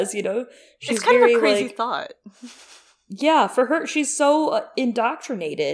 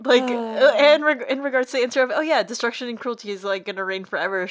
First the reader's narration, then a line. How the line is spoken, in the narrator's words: she laughs nervously